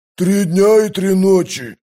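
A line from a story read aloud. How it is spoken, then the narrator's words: Growl. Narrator (Russian): прорычал Кафал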